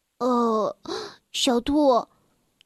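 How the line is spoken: Exclaiming. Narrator (Chinese): 站在一旁的小欢感叹道

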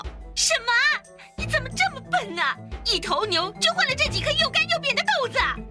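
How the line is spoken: Angry shouting. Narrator (Chinese): 妈妈就生气的大叫

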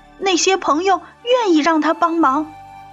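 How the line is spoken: Shouting. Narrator (Chinese): 松鼠大叫

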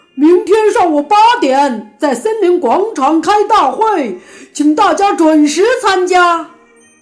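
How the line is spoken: Loud shout through megaphone. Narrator (Chinese): 狗熊又用喇叭大声喊

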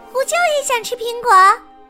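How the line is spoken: Calling out. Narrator (Chinese): 茉莉叫

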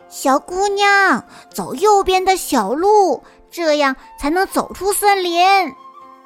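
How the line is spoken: Quiet call, little bear. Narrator (Chinese): 小熊呢，他小声的喊

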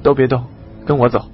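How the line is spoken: Cold voice. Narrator (Chinese): 洞里响起一个冷冷的声音

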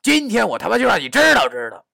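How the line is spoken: Shouting. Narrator (Chinese): 我大喊道

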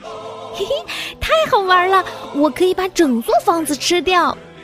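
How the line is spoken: Ecstatic shout. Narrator (Chinese): 忘情的大叫起来

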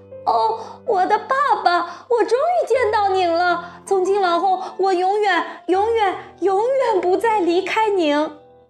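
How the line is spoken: Bursting joyful cry. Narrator (Chinese): 他好容易迸发出一阵欢呼，叫了起来

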